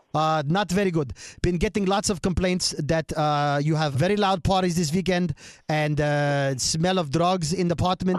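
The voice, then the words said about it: Put-on Russian accent. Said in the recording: “I'm going to call her as one of those Russian landlords ... bad accent theater ... I nail it”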